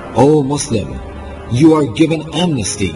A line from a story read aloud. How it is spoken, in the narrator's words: Muhammad ibn Ash'ath cried